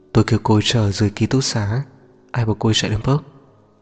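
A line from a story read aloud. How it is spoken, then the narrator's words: Soft reproachful voice. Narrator (Vietnamese): Liệt khẽ mở miệng, thanh âm lộ rõ vẻ trách cứ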